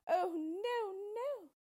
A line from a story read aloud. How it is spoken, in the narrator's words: she cried